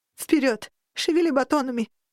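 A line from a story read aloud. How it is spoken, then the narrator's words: Tearful shouting. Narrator (Russian): сквозь слезы прокричала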